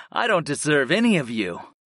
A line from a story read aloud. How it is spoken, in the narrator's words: I chuckled